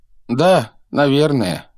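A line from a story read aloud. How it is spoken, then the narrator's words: Sad. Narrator (Russian): грустно произнес круглолицый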